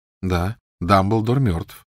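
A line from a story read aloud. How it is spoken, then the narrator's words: Calm reply. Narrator (Russian): спокойно откликнулся Гарри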